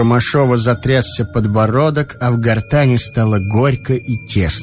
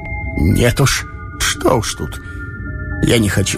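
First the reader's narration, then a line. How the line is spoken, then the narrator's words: Choked, breaking, near sobbing. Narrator (Russian): Едва удерживаясь от рыданий, он ответил обрывающимся, задушенным голосом обиженного ребенка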